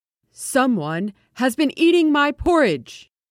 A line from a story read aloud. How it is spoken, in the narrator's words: In his great big voice, he roared